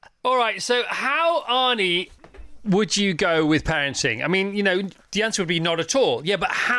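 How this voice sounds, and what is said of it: Usual voice. Nothing is said of it.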